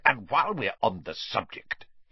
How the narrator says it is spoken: Uncle Vernon snarled

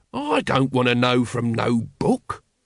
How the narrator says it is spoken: growled Nobby

